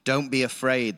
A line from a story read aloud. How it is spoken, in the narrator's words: the prophet answered